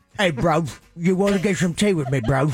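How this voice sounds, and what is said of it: Bad put-on English accent. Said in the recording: “Let me hear your English accent... it sounds like Dick Van Dyke... something you might hear in Buckingham Palace, not in the alley”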